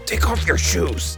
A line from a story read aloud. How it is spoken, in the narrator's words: he whispered fiercely